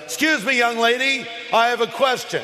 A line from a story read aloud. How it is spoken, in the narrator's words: he interrupts and says very loudly